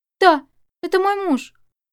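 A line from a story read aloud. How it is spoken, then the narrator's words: Frightened, grief-stricken answer. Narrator (Russian): испуганно ответила сраженная горем Чэнь Яо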